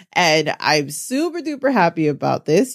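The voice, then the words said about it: Excited, happy tone. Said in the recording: “You definitely can hear the excitement in my voice.”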